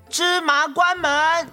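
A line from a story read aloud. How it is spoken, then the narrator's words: Shout. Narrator (Chinese): 喊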